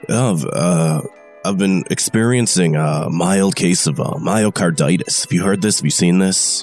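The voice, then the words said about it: Hoarse, rough voice. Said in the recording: “You're not sounding so hot over there, man ... hoarse voice”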